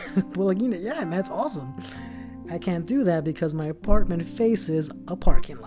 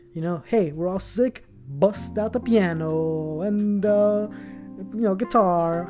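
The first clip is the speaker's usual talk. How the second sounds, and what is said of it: Put-on foreign accent. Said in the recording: “I don't know why I'm putting on that accent.”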